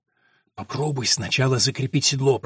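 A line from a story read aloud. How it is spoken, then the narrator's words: Whispered. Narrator (Russian): прошептала Алина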